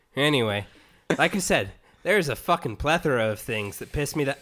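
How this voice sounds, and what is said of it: Put-on Irish accent. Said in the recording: “he's Irish, not from Boston”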